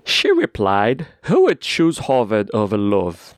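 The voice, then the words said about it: Put-on British accent. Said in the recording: “let me bring out my British accent. ... I think that's as that's as British as I can get.”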